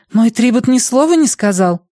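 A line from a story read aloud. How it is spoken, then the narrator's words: Exclaiming. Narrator (Russian): воскликнула Клеменсия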